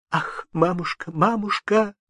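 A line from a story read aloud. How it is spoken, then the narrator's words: Sobbing answer. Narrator (Russian): отвечала, всхлипывая Анастасия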